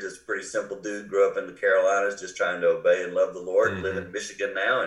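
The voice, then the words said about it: Non-Michigan regional American accent. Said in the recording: “that explains your accent ... you're not born and raised in Michigan”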